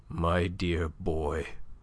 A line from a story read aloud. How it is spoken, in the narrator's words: His lip trembled, and there was a huskiness in the voice that murmured